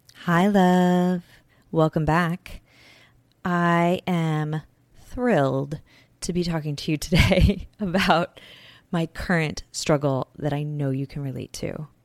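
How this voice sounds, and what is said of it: Tired-sounding voice. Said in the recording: “I bet you can even hear it in my voice. I am so tired today.”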